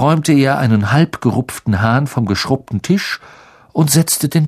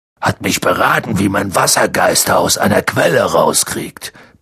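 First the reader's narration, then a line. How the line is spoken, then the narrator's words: Grumbling. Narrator (German): brummte Hagrid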